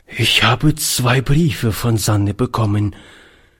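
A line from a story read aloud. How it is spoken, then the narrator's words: Old man, trembling voice. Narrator (German): fuhr der Alte mit zitternder Stimme fort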